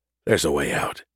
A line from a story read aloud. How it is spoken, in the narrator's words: he whispered, trying to alleviate those thoughts